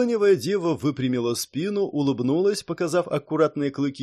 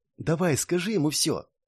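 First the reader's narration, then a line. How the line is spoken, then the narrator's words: Encouraging whisper. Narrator (Russian): подбадривая, и шепнул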